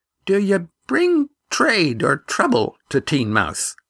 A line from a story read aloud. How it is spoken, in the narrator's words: asked the man with the sword in a curiously high voice